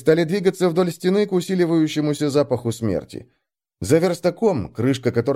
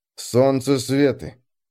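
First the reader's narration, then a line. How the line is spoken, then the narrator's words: Gloomy. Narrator (Russian): мрачно продолжил я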